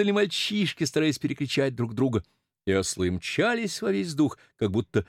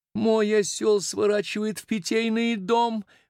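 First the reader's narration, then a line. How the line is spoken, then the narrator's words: Loud yelling. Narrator (Russian): вопила Шарлотта в арьергарде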